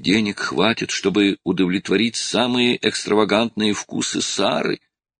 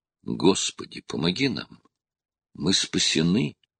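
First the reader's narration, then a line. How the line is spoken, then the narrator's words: Barely audible, trembling. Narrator (Russian): чуть слышно пробормотал Роб, голос его дрожал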